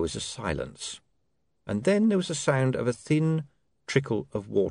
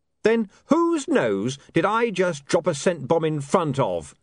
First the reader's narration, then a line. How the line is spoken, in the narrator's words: said William triumphantly